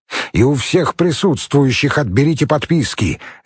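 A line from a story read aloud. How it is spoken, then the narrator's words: Sharp command. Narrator (Russian): резко приказал Евсеев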